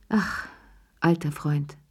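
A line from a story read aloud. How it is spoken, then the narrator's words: Grateful sigh. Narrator (German): seufzte Cherie dankbar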